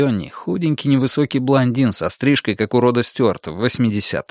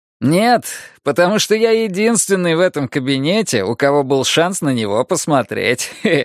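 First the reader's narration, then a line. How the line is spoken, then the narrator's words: Laughing. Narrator (Russian): рассмеялся Бенни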